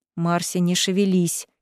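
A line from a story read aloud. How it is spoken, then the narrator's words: Quiet command. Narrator (Russian): тихо приказал проректор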